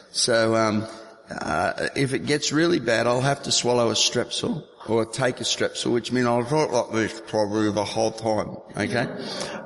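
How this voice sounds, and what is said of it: Strained, unwell-sounding voice. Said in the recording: “My voice is, as you can probably tell, not at its best.”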